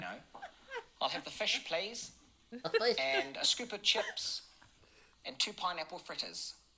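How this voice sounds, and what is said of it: New Zealand accent. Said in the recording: “the New Zealand accent is the sexiest in the world”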